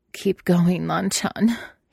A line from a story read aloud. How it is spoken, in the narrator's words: said, though his voice cracked a little